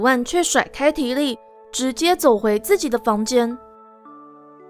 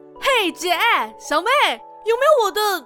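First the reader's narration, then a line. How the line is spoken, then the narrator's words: Enthusiastic shout. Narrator (Chinese): 提利热情的大喊一声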